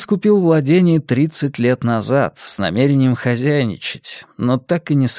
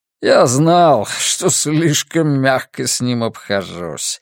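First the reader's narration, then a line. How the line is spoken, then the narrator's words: Laughing. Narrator (Russian): рассмеялся Ринус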